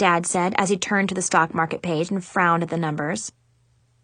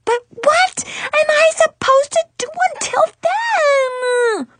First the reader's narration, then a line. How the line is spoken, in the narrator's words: I shrieked at the top of my lungs